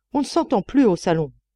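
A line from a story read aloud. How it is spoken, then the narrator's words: Shouting. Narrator (French): criait-elle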